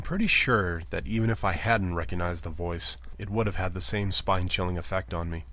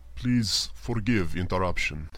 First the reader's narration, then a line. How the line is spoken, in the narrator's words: he said, his speech thick with a Samarifon accent